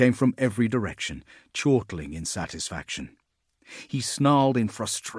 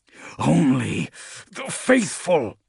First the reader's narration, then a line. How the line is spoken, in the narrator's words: Grim hissed between clenched teeth